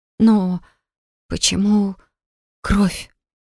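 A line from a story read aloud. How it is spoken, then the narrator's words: Trembling question. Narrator (Russian): спросила я подрагивающим голосом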